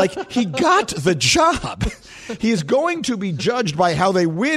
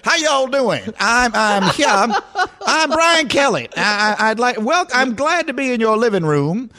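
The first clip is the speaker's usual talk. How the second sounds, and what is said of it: Put-on Southern American accent. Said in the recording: “affecting an accent ... I'm doing the best Southern accent I can”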